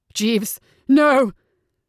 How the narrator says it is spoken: Gabriel howled

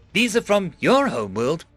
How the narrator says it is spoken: I exclaimed

